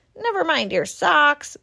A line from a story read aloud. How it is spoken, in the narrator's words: grumbled Badger